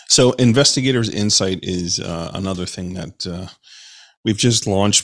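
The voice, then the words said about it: Voice affected by a cold. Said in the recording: “I'm getting over a cold here, folks. So if my my voice is cutting in and out”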